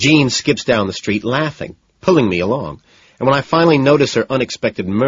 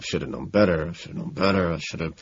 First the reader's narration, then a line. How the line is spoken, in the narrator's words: utterly devastated and murmuring robotically to myself